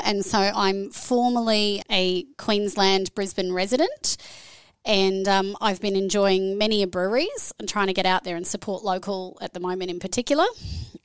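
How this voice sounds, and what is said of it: Australian accent. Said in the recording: “I'm originally Australian, as you can hear by the accent”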